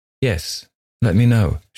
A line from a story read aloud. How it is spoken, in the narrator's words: she replied in an even tone